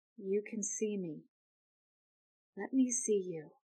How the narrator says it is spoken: she is going to very, very quietly say

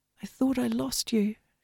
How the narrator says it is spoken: she said quietly

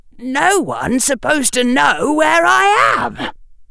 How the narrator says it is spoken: said Harry, still keeping the shriek quiet

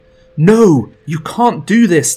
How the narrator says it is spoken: the woman yells

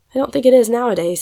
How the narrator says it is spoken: said Fanny with a tired sort of sigh

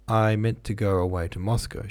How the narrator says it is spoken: she said

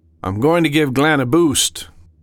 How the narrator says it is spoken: Sam called out

